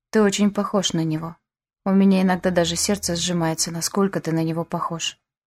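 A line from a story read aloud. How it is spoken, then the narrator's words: Quiet. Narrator (Russian): тихо сказала я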